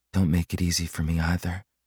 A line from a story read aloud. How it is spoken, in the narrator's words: she breathed